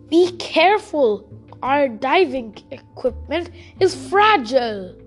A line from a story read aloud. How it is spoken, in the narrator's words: shouted Samuel's uncle